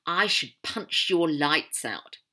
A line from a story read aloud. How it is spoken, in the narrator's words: Dre snarled